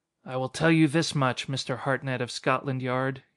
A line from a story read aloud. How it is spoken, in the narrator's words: he said bitterly